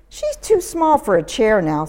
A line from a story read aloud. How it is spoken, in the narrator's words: sighed Layla's mother